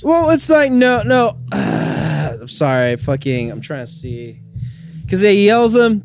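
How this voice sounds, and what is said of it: Hoarse, strained voice. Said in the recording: “My voice is pretty wrecked ... now my voice is gone”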